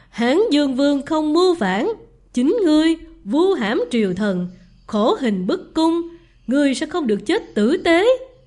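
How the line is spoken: Loud laugh. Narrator (Vietnamese): Vương Trường Sử bật cười lớn

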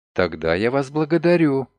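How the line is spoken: Quiet. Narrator (Russian): тихо произнесла Лиля

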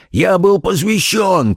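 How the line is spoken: Old scoundrel shouting. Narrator (Russian): крикнул старый негодяй

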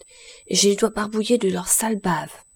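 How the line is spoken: Murmured. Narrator (French): murmure Poil de carotte

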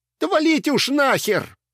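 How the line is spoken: Shouted. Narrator (Russian): кто-то выкрикнул

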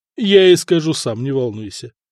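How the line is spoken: Amused snort. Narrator (Russian): хмыкнул Куропалат

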